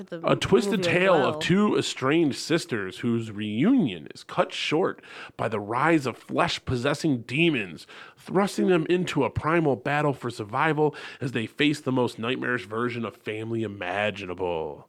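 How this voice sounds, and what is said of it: Announcer-style radio voice. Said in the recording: “my radio voice”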